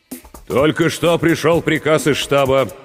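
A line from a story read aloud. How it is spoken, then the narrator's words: Voice growing stronger. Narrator (Russian): продолжал Борисов окрепшим голосом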